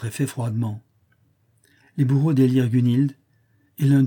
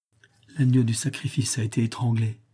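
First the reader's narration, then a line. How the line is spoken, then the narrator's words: Faint, lifeless murmur. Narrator (French): murmura Elpis d'une voix éteinte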